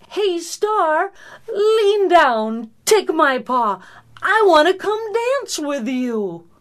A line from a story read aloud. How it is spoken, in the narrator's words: called out